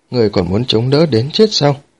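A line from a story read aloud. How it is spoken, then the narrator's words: Smiling. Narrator (Vietnamese): Đỗ Tuyệt mỉm cười nói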